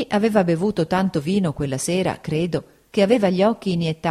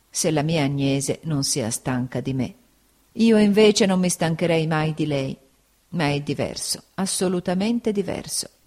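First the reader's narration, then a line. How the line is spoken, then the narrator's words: Murmuring. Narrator (Italian): egli mormorò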